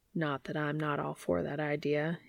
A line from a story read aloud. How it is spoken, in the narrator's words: he murmurs